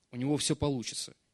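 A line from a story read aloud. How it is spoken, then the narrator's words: Quiet words. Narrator (Russian): тихо сказал Бог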